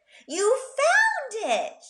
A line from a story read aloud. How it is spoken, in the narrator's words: she cried excitedly